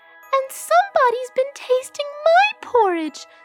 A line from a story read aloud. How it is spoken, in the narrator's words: squealed the baby bear